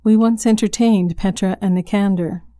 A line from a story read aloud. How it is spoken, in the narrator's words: said Helen